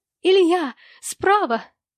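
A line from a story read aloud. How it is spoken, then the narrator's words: Sharp cry. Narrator (Russian): вскрикнула Вера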